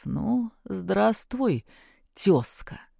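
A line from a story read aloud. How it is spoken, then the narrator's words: Quiet ingratiating voice. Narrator (Russian): вкрадчивый голос негромко произнес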